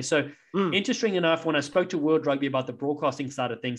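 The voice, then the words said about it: South African accent. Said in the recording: “I have a South African accent ... nobody here knows what that accent is ... What part of Britain are you from?”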